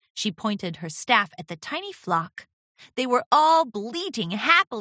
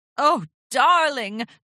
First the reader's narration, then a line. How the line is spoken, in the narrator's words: Rarity gasped